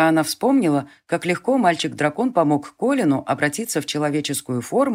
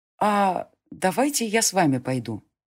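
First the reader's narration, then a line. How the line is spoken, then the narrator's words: Hesitant suggestion. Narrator (Russian): неуверенно предложила Селена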